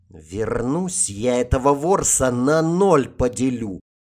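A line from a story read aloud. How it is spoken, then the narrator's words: Angry hiss. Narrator (Russian): зло прошипела Сатта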